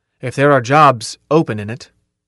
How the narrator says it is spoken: Carl said firmly

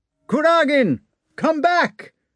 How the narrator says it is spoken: shouted Dolohov

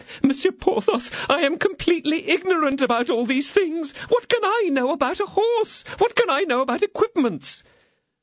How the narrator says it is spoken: The attorney's wife hung on Porthos's arm, and in the violence of her grief exclaimed

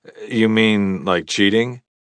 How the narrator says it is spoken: She chuckled

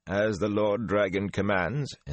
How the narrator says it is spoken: in that same dry tone

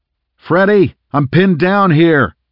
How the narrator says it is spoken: Rhys yelled, hoping that his partner could hear him over the sounds of battle

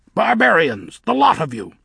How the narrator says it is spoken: snapped Nanny

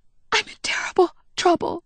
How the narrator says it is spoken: she whispered

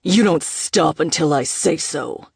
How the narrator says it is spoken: her father growled

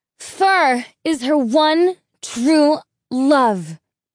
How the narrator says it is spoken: he yelled

